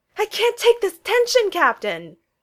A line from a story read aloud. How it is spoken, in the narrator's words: Thor exclaimed